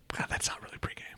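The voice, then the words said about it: Whispering. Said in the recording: “Why are you whispering now?”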